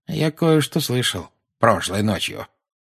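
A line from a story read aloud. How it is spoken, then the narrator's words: Quiet. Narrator (Russian): негромко сказал Дадли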